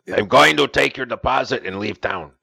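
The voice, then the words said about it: Put-on accent. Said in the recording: “What was that accent there? Who was that?”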